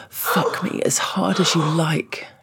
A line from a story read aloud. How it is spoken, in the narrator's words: groaned